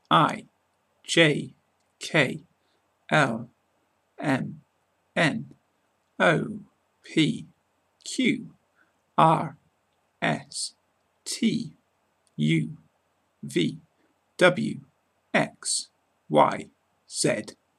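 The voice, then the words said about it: British English accent. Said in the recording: “how to speak with a British accent when pronouncing the English alphabet”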